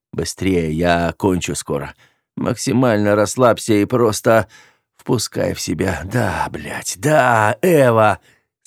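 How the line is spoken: Growled. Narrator (Russian): Зарычал

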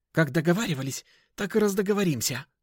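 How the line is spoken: Creature snapping back. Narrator (Russian): огрызнулось существо

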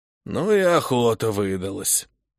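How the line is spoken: Heavy sigh, old man. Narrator (Russian): Вздохнул тяжело старик

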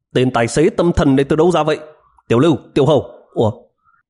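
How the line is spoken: Loud scolding. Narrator (Vietnamese): Lý Phi Phạm cất cao giọng mắng

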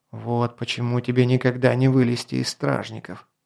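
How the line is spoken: Muttering. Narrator (Russian): пробормотал

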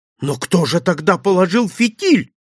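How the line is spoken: Frightened exclamation. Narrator (Russian): испуганно воскликнул я

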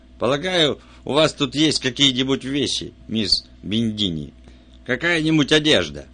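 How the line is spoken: Bleating goat-like voice. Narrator (Russian): Кремер все еще говоря козлиным голосом

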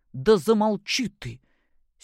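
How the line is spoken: Angry. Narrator (Russian): Сердито проговорил Григорий Иванович

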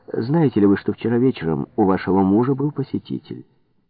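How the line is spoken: Calm. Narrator (Russian): она спокойно ответила

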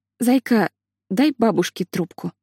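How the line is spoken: Calm request. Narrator (Russian): спокойно попросила Лили

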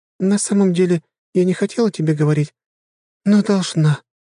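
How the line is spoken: Heavy sigh. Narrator (Russian): тяжело вздохнула девушка

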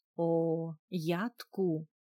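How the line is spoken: Solemn announcement. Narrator (Russian): торжественно объявила Анни

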